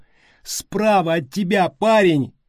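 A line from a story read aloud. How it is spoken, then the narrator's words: Shout. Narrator (Russian): крикнула Стеф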